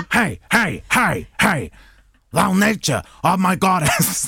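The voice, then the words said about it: Imitates another person's voice. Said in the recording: “Do an Al Pacino impression. I will do an Al Pacino impression ... Al Pacino in Shakespeare”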